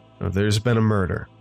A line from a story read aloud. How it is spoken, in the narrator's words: he replied dryly